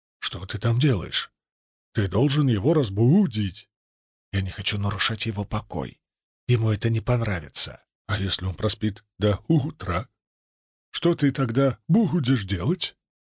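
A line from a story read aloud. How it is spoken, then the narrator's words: Very quiet talk. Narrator (Russian): Мы разговаривали очень тихо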